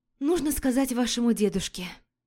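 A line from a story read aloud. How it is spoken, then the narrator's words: Sighed. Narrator (Russian): вздохнула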